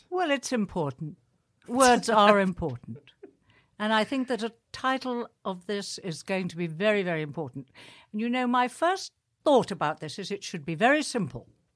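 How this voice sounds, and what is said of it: Fake British accent. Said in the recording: “Very convincing fake British accent”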